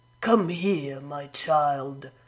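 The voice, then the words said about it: Sickly sweet voice. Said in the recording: “in a sickly sweet voice.”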